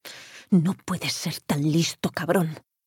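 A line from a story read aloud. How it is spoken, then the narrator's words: Murmur. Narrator (Spanish): murmuró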